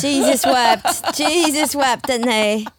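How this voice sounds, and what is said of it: Put-on accent imitating another person. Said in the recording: “Turning into Ringo Starr? ... that accent”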